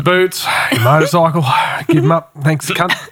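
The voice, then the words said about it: Australian-accented Terminator voice. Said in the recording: “Fucking Aussie Terminator.”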